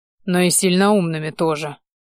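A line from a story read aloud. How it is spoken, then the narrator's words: Snort. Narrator (Russian): хмыкнул я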